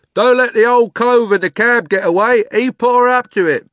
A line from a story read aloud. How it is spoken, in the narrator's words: someone else called out